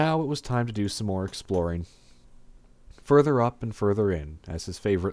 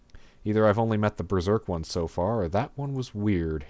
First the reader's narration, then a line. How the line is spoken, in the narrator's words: he muttered to himself